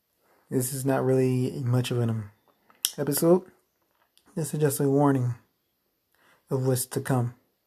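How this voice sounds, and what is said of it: Scratchy, strained voice. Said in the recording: “my voice is a little scratchy, it's changing up, but it's because I've been yelling all day”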